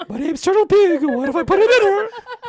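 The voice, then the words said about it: High-pitched Mickey Mouse cartoon voice. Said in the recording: “Why is ... now Mickey Mouse? ... horny Mickey Mouse”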